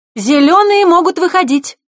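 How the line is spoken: Ringing shout. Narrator (Russian): Звонко крикнула вожатая

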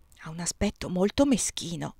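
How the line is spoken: Murmur. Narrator (Italian): mormorai

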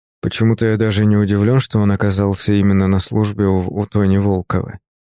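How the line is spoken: Gloomy flat statement. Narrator (Russian): мрачно констатировал я

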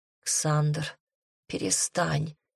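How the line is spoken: Hoarse whisper. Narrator (Russian): хрипло прошептала я

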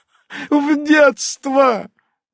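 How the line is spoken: Loud laughter. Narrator (Russian): захохотала врачиха

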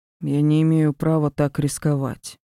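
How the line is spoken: Doomed, resigned agreement. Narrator (Russian): обреченным тоном согласился Ди

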